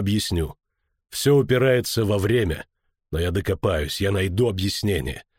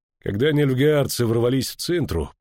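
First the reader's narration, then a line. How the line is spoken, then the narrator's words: Grumbling. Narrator (Russian): проворчал он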